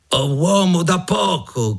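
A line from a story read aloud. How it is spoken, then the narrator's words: Shouted. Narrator (Italian): gridò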